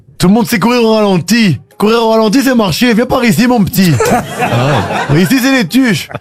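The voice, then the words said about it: Les Tuches accent. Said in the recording (French): “Vous faites l'accent des tuches.”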